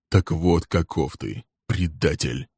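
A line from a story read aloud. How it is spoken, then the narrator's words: Grim. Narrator (Russian): произнес он мрачно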